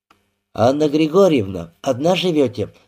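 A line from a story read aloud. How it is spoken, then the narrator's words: Plain. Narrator (Russian): спросила Кашина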